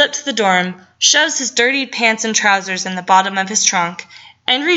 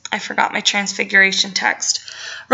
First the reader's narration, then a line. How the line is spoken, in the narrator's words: So he bites his tongue and mutters